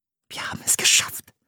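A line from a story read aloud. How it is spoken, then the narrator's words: Whisper. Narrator (German): flüsterte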